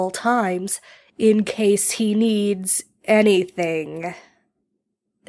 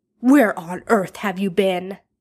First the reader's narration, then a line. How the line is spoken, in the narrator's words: Arthur snaps